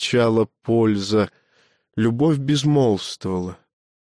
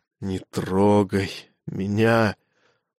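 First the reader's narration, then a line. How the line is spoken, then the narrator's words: Hoarse rasp. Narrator (Russian): родилось из хрипа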